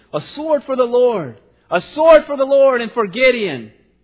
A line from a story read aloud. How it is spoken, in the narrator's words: they shouted